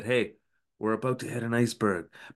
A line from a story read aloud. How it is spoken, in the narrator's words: he does whisper to the captain quite effectively